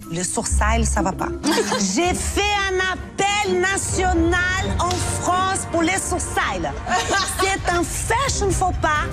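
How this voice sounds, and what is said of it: Delightful exuberant Brazilian accent. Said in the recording (French): “cet accent brésilien délicieux et une exubérance de carioca un jour de carnaval”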